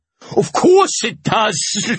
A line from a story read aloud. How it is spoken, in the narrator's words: he laughed